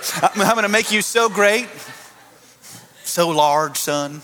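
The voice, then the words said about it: Put-on Southern accent. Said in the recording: “God's got a southern accent apparently today”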